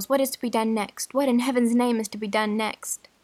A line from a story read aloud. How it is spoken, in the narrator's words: cried Charles